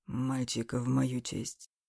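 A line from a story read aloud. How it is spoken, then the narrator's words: Whispered. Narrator (Russian): прошептал он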